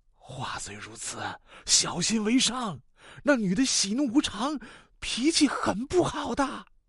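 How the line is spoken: Softly. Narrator (Chinese): 轻声说

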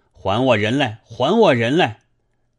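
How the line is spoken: Shouting. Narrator (Chinese): 喊道

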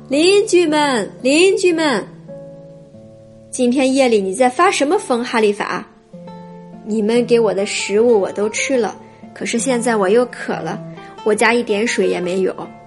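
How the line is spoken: Fisherman calling out again. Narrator (Chinese): 渔夫又叫起来

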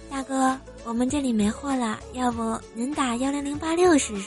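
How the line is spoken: Soft, after a pause. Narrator (Chinese): 姑娘沉默了半分钟，柔声的跟我说

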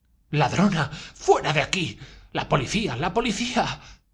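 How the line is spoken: Howled. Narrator (Spanish): aulló Amalia Ivanovna

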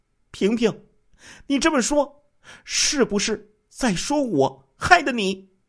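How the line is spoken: Furious exasperated shout. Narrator (Chinese): 孙美清一听，立即气急败坏的就冲着小袁平喊了起来

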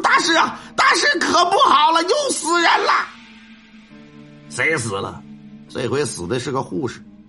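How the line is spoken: Panicked shouting from outside. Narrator (Chinese): 慌里慌张…打外头就开始喊说

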